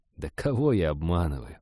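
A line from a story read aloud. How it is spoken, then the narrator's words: Sighing. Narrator (Russian): Женька вздохнул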